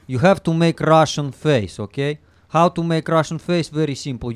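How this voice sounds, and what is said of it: Put-on Russian accent. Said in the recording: “you can do a Russian accent, teach people how to do a Russian accent ... To make Russian accent very easy.”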